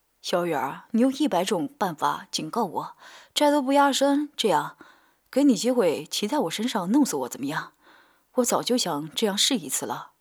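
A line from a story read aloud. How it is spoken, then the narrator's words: Sleazy grinning. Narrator (Chinese): 他一脸贱相，笑嘻嘻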